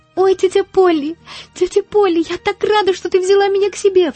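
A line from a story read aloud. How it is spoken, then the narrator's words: Girl sobbing. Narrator (Russian): всхлипывала девочка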